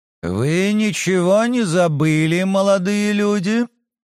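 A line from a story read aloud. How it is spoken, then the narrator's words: Muffled, hoarse voice. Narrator (Russian): Голос Марии Алексеевны звучал глухо с хриплыми нотками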